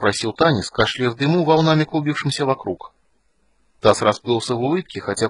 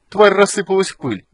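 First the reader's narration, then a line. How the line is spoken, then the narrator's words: Cheerful report. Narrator (Russian): доложил он весело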